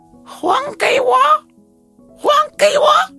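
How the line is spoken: Thin, shrill female voice. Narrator (Chinese): 一个女人 声音非常尖细，对着他说

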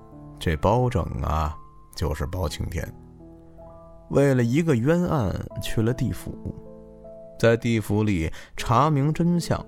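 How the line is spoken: Smiling. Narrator (Chinese): 大伯又笑眯眯的对着小黑讲

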